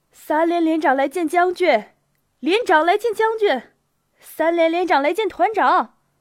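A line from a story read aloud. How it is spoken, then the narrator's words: Shouting. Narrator (Chinese): 他停住脚步喊道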